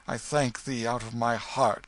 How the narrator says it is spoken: exclaimed Hendon, with a fervency which showed that he was touched

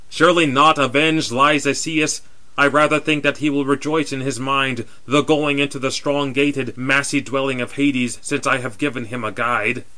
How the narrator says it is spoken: Deiphobus vainly boasted over him, loudly exclaiming

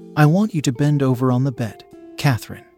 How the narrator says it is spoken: he said

